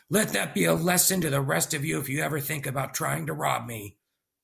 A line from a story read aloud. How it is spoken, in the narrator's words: The man then shouted to the crowd